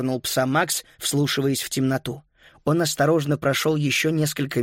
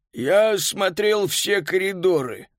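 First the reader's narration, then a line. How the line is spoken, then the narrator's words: Hoarse familiar voice. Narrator (Russian): прохрипел знакомый голос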